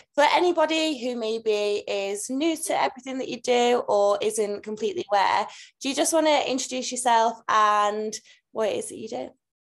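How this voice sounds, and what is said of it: Speaks with a noticeable accent. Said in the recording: “I love your accent”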